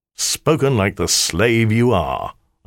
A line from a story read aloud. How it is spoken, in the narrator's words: I sneered